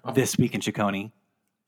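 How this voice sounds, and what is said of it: Radio announcer voice. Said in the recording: “in the best radio announcer voice that you've got”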